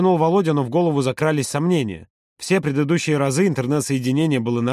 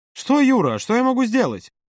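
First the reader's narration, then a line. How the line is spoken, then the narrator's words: Irritated exclamation. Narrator (Russian): раздраженно воскликнул тот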